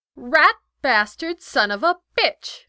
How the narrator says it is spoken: she exclaimed

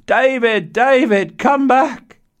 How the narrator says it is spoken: mother shouting in the distance

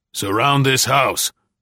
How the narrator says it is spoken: Greg snapped to the rest of his men

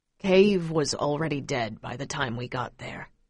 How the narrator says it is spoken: Pa speaks wearily

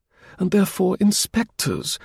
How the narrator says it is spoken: cooed ingratiatingly, as if she were talking to a very small child

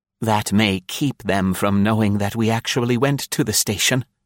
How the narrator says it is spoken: he whispered with a sagacious look at the girl

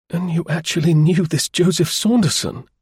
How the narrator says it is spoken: he exclaimed wonderingly

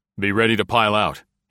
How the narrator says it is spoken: said curtly

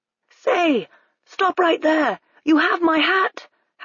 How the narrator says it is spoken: Hackworth shouted

